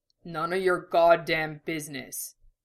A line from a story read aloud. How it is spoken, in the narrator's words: Dom grunted